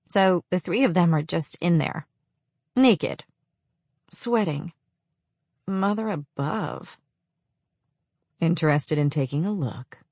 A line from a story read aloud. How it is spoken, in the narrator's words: The dark purr echoed into my mind